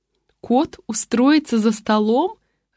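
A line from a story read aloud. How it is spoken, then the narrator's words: Laughing out loud. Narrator (Russian): расхохоталась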